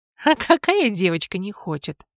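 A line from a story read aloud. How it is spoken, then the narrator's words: Laughing. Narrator (Russian): рассмеялась я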